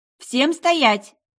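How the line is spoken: Shouted. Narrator (Russian): крикнула я вслед за вторчиком

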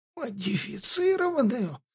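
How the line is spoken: Shouted whisper. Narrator (Russian): закричал шепотом лорд Фахтов

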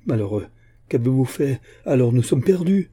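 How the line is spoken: Exclaimed. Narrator (French): s'écria l'évêque

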